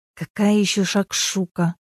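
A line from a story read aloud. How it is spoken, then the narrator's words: Sorrowful mutter. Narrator (Russian): пробормотала Инга, горестно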